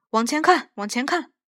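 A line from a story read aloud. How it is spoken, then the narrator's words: Shouting through megaphone. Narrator (Chinese): 管事员对着扩音器，只顾喊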